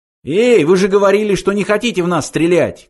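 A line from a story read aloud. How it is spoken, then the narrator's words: Shouted. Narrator (Russian): крикнул он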